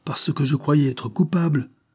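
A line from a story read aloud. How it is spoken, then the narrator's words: Exclaimed. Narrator (French): s'écria Langlade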